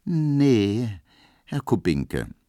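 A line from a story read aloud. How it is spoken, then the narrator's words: Very slow reply. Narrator (German): versetzte Pauline ganz langsam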